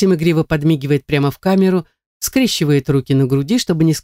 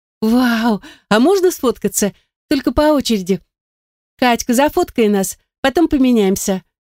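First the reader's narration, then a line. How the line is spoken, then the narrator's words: Giggling young woman. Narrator (Russian): хихикает блондинка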